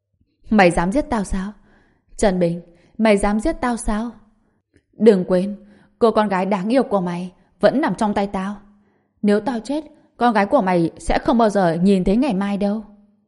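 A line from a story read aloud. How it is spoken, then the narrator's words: Cold mocking giggle. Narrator (Vietnamese): Chu Mậu cười khúc khích chế nhạo, trên mặt lộ ra vẻ lạnh lùng, nói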